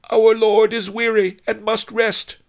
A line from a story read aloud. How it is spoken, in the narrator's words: Fat Fu shouted to One-Eyed Wong